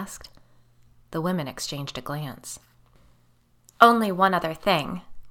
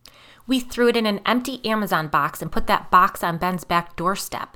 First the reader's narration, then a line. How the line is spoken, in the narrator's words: Michaela said angrily